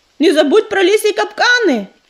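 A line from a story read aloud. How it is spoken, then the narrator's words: Shouted after someone. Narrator (Russian): крикнул ему вслед ежевика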